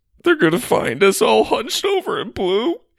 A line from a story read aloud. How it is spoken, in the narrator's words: he said between sobs